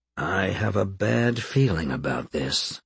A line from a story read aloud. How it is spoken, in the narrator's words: he said softly